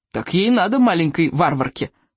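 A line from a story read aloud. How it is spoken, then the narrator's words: Grumbling soldier. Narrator (Russian): проворчал солдат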